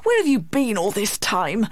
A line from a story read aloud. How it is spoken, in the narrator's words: he cried crossly